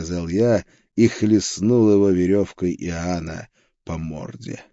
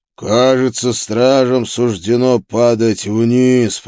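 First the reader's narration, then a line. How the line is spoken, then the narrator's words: Demon growling. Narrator (Russian): прорычал демон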